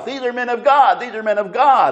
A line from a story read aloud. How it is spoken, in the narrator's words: she would shout